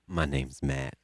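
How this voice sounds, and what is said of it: Jokingly deep, low voice. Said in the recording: “My voice is not that low.”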